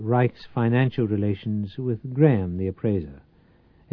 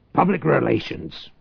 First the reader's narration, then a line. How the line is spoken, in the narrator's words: Reich snapped